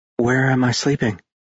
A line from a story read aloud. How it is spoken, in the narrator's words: she murmured